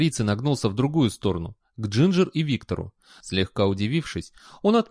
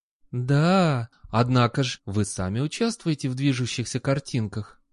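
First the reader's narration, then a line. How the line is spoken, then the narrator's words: Gentle reminder. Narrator (Russian): ласково напомнил Патриций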